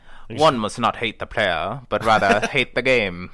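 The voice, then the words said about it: Old-timey posh British accent. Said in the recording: “1940s BBC announcer ... a stereotypical posh British guy in American movies ... an old-timey British accent ... high society ... like an old British guy ... Like in the 1940s”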